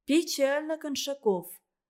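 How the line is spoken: Sighing. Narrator (Russian): вздохнула Надежда Петровна

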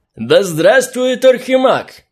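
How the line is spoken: Drunken slurred shout. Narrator (Russian): крикнул заплетающимся языком в усмерть пьяный, неопрятный гном

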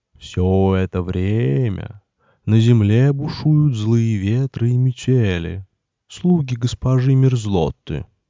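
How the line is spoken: Sad owl hoot. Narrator (Russian): добавил филин и печально ухнул

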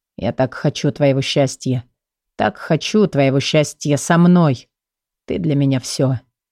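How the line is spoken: Hoarse, possessive, sincere. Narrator (Russian): Его голос хриплый и собственнический, но такой искренний

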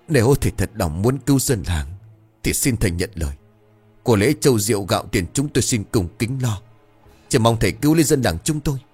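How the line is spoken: Hurried trembling voice. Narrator (Vietnamese): Ông Lý vội vàng run rẩy

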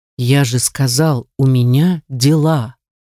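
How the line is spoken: Through gritted teeth. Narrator (Russian): Цежу каждое слово сквозь зубы

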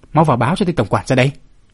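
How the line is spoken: Loud shout. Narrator (Vietnamese): từ bảo môn có tiếng quát lớn

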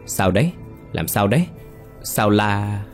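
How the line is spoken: Terrified shout. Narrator (Vietnamese): bà cũng la lên khiếp đảm

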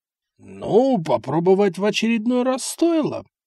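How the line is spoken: Grumbling audibly under breath. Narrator (Russian): пробурчал себе под нос, но так, чтобы все услышали, Эссекс

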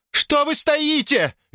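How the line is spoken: Shrieking. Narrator (Russian): визжала она

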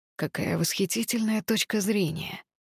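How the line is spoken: Hoarse chuckle. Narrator (Russian): сказал другой мужчина, хрипло усмехнувшись

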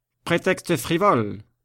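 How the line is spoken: Plain. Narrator (French): dit Chaise-Martin

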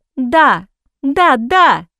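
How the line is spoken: Girl shouting. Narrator (Russian): закричала девушка

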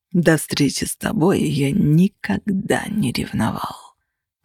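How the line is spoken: Quiet menacing tone. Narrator (Russian): продолжал Костя все тем же тихим и угрожающим тоном

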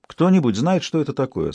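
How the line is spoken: Plain. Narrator (Russian): спросила Леа

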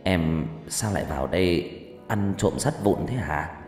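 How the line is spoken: Gentle question. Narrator (Vietnamese): Chú nhẹ nhàng hỏi

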